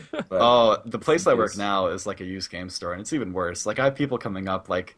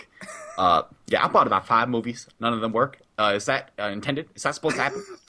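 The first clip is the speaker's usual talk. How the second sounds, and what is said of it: Weird put-on customer accent. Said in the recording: “Do they all have a weird accent? ... Very interesting accent that you have.”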